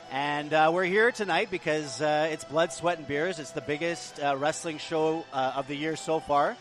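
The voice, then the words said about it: Radio announcer voice. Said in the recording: “I do this radio voice”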